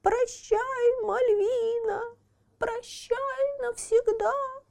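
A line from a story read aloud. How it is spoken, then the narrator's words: Whiny high squeak. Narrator (Russian): плаксивым голосом пропищал человечек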